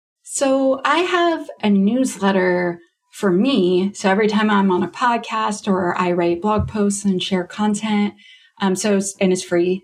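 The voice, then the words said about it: Canadian accent. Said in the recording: “because I'm Canadian, you can hear my accent when I talk about stuff”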